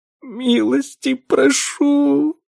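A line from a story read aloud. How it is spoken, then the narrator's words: Barely audible breath. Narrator (Russian): выдохнула она едва слышно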